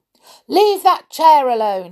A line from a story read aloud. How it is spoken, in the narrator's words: he shouted